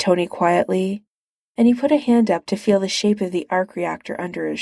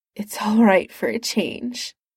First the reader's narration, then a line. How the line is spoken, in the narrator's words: he said in a wobbly voice